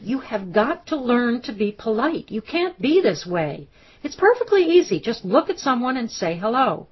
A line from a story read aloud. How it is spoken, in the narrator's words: She shouted